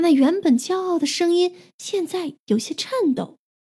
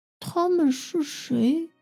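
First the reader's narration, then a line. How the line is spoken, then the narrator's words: Barely audible, repeated question. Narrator (Chinese): 戈伯重复问，声音小到几乎听不见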